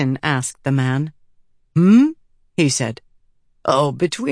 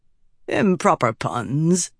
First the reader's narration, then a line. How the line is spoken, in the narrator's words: the man said lazily